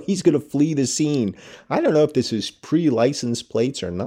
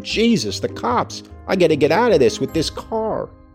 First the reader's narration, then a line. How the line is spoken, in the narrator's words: exclaimed